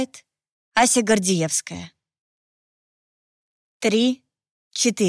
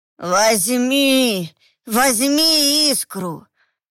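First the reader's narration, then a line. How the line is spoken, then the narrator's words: Hoarse howl. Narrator (Russian): Хрипло провыло сбоку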